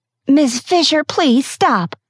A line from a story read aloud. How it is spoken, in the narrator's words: pleaded